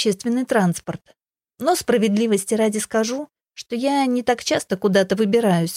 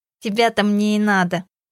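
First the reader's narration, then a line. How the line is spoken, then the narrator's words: Nasal voice. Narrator (Russian): гнусаво проговорил он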